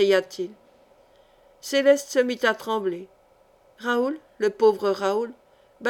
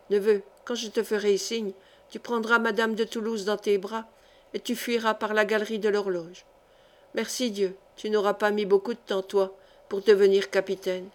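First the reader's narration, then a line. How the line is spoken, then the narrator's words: Said quietly. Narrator (French): il lui disait tout bas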